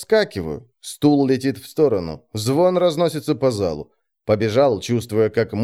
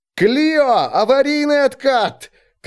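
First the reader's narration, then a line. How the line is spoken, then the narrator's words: Shout. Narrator (Russian): крикнул я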